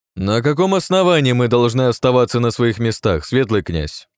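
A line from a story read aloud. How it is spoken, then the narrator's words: Sudden loud question. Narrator (Russian): вдруг громко спросил Воронцов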